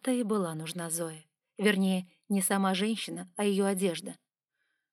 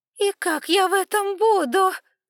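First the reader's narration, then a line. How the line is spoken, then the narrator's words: Whining. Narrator (Russian): скулила гулящая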